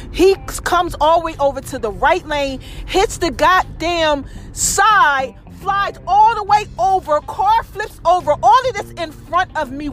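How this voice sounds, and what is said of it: Loud, yelling speech. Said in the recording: “I'm yelling at everything”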